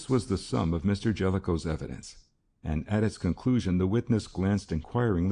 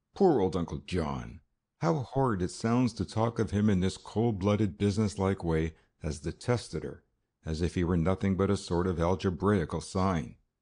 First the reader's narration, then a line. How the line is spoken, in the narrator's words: with a sigh she murmured